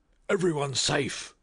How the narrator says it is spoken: cried a fireman

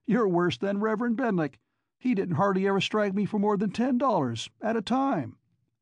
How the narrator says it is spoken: Annie chirped

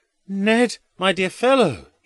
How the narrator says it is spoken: he cries in a loud voice

